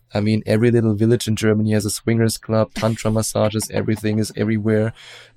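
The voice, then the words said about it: German accent. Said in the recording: “as you probably hear from my accent, I'm German”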